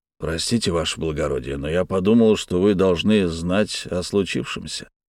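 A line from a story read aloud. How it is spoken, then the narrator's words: Calm. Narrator (Russian): спокойно произнес начальник гвардии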